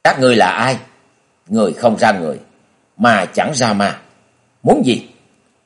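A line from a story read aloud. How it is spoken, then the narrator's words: Bold shout. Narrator (Vietnamese): đánh bạo quát lên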